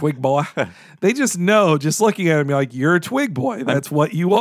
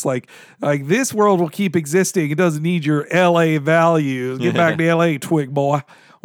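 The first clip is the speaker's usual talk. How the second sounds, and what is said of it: Put-on Southern man voice. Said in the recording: “putting on my Southern man voice”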